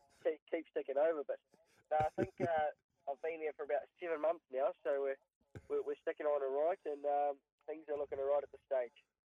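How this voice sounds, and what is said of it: New Zealand accent. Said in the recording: “you're even losing the Kiwi accent”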